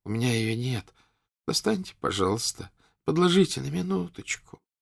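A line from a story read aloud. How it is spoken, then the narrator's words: Pitiful voice. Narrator (Russian): говорил жалким голосом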